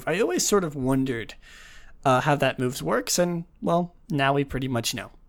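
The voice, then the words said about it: Tired, under-the-weather voice. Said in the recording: “I am very tired. I apologize if you can hear it in my voice. I've been feeling pretty under the weather recently”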